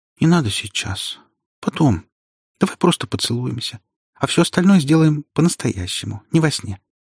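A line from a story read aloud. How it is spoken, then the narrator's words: Uncertain girl objecting. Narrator (Russian): Девушка неуверенно возражает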